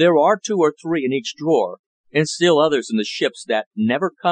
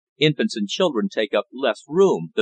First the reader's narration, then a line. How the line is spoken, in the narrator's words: the master said